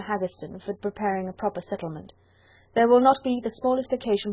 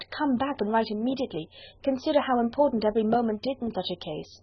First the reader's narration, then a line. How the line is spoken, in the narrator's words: she cried